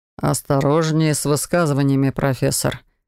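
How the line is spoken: Through gritted teeth. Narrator (Russian): процедил Лоран

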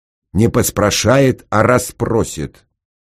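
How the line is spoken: Stern. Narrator (Russian): строго сказал инженер

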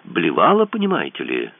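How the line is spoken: Cheerful. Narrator (Russian): сообщила она вполне бодро

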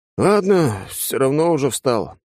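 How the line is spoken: Grumble. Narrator (Russian): пробурчал

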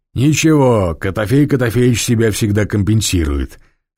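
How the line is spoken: Chuckling. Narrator (Russian): хохотнул другой игрок

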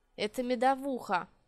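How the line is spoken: Gloomy. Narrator (Russian): мрачно наблюдая за мной, сообщил Долларец

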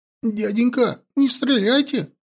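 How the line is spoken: Sobbing. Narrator (Russian): всхлипнул он

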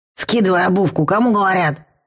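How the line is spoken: Troll's gruff bark. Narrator (Russian): рявкнул тролль

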